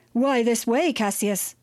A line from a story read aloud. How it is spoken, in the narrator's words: shouted Postumia